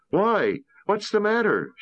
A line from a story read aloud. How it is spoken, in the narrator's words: called out